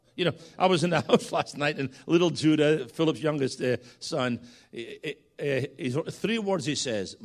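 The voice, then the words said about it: Scottish accent. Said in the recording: “this is a Scotsman”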